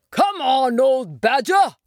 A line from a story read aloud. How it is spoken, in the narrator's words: shouted the Rat